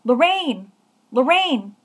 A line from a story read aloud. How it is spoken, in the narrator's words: I heard someone shout